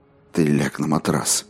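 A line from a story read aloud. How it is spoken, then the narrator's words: Unsteady voice. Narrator (Russian): сказала ему не то что подражающим, но все же не твердым голосом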